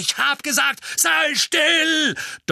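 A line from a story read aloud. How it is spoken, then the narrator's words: Man's thundering roar. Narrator (German): donnerte der Mann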